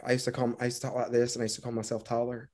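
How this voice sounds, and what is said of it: Southern American accent. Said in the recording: “Southern accent, because I do it all the time because I'm originally from the South”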